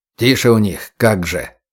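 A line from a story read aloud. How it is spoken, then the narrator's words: Scornful snort. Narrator (Russian): фыркнул Бич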